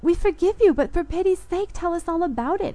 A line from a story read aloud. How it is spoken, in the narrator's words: I cried